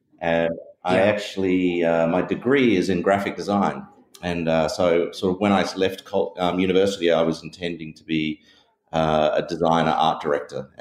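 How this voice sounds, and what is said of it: Australian accent. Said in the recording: “you can tell from my accent, I'm from Australia”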